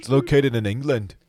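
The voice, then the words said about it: Bad put-on English accent. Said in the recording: “That's a really bad accent. I don't even know if you're doing an accent. You're just changing the tone of your voice.”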